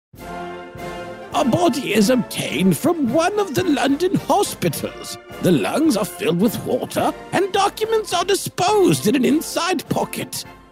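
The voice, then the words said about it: Exaggerated chewy British accent. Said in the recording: “a real chewy British accent”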